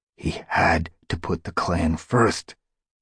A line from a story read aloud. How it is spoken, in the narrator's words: Graystripe hissed back